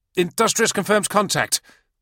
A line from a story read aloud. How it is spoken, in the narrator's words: the aide said excitedly